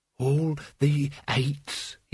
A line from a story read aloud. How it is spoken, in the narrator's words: he breathed